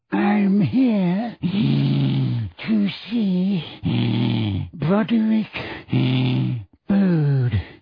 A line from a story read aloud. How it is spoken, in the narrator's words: he wheezed